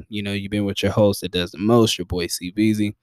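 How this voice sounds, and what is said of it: Tired late-night voice, low energy. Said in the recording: “This has been a late night edition, as you can probably tell in my voice and in my energy.”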